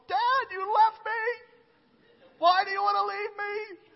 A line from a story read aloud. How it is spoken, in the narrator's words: she was bawling